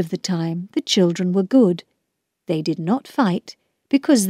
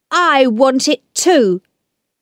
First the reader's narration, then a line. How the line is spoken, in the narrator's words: Peter shouted